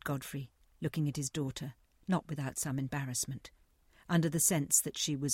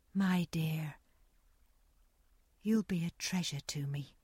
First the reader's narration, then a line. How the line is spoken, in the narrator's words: said Nancy in her gentle voice